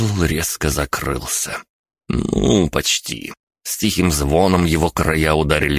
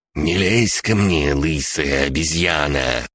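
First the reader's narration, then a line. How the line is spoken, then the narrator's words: Hissed. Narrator (Russian): прошипел Борис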